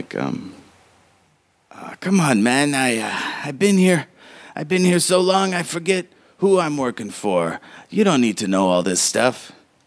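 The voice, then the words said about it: Character voice of a lobster man. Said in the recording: “I'll do this in his voice”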